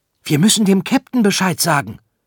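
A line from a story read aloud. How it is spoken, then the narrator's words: Called out. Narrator (German): rief Arthur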